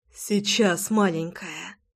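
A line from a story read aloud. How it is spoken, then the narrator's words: Whispered. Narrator (Russian): шептал Роман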